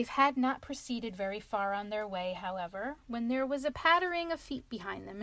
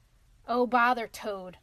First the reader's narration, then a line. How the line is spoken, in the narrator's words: said Rat savagely